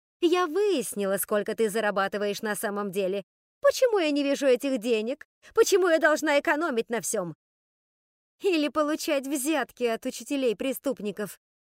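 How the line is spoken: Snide interjection. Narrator (Russian): ехидно ввернула Скарлетт

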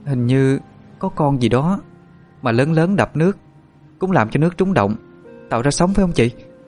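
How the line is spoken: Quiet, slightly trembling. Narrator (Vietnamese): Thụy hơi run run nói nhỏ với Tú Linh

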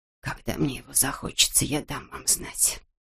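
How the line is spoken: Old woman whispering. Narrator (Russian): прошептала старуха

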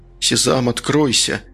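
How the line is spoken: Quiet. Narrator (Russian): тихо произнес

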